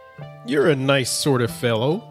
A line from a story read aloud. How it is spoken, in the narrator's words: said the tailor